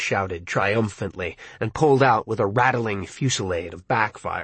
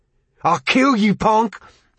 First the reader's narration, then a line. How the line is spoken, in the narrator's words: Ralph roared